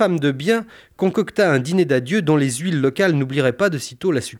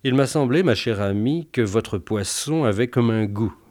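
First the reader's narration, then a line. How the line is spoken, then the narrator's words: Irritated murmur. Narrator (French): lui murmura-t-il, sur un ton d'agacement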